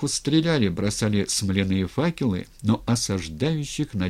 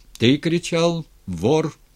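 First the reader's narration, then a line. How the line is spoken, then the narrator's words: Plain. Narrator (Russian): спросил Степан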